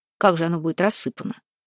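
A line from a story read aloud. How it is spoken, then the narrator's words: Smirking grunt. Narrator (Russian): хмыкнул Жила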